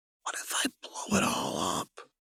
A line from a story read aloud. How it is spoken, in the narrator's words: Jinx whispered